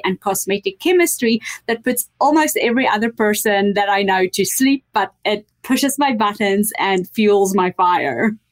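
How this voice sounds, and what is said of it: Blended New Zealand, South African, Canadian accent. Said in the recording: “has a blended accent. ... I know she's in New Zealand, but I hear more South Africa ... It's New Zealand, South Africa, and Canada.”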